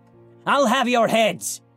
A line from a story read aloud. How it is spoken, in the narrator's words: screamed